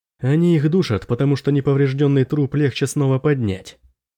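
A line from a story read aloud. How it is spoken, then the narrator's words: Plain. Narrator (Russian): сказал Дарин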